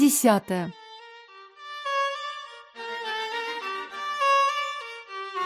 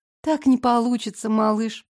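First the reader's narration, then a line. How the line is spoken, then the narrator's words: Sighing. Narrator (Russian): вздохнула я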